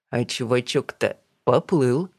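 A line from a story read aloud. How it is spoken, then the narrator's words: Chuckling. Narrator (Russian): хохотнул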